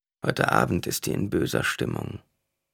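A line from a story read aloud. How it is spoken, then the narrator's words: Woman murmuring. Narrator (German): murmelte eine Frau zu ihrer Nachbarin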